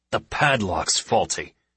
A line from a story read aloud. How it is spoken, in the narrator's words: snarls the lieutenant